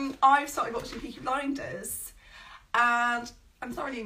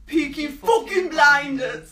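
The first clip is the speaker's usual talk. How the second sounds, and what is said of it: Bad put-on Birmingham accent. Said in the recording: “that was a bad accent. That was a really bad accent. ... The Brummy is notoriously quite hard.”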